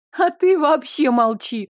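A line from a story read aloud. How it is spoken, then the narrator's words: Laughing. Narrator (Russian): рассмеялась матушка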